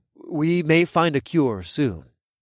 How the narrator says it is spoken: I said in a cautious voice

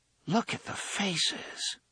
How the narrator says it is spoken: Susanna murmured

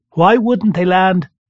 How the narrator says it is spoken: I asked, raising my voice just a tiny bit to be heard over crying gulls

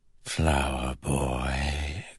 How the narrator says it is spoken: cooed a voice in his ear

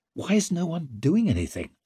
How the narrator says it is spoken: muttered Leo, gripping his throbbing thigh

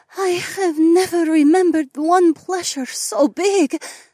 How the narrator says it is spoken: Adhara panted

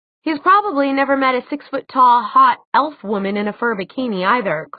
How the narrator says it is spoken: Clary said irritably

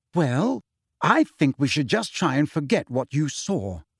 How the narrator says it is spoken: said Hermione firmly

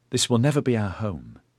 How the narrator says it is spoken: she told Eddyard sadly

